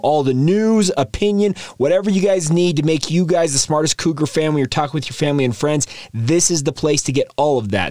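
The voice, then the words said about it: Voice sounds a little funky. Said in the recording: “my voice sounds a little funky. Still dealing with some seasonal allergies ... Apologies if it sounds a little different”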